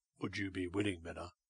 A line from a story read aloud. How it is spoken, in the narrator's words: he asked, in a low voice